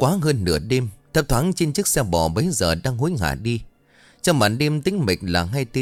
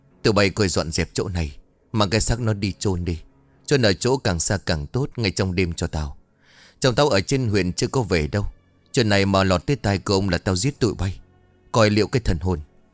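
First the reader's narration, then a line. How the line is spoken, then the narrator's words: Forced calm, stern. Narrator (Vietnamese): Bà Lý cố gằn giọng nói với vẻ bình tĩnh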